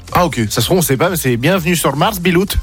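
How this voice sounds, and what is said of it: Strange mixed made-up accent. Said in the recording (French): “Il est bizarre ton accent ... C'est un mélange de plein d'accents ... Il veut rien dire ton accent”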